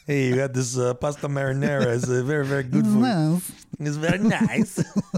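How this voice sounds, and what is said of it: Put-on accent sounding like Borat. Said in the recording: “No matter what accent I do, Borat comes out.”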